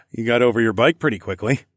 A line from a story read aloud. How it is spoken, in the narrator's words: I laughed